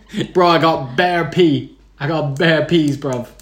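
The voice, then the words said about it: Bad put-on English accent. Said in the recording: “the worst horrendous English accent you've ever done”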